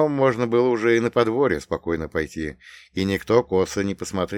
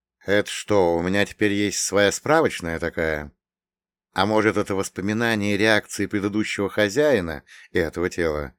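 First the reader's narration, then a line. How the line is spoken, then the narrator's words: Thoughtful drawl. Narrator (Russian): Задумчиво протянул я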